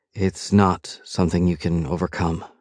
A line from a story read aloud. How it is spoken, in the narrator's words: she says quietly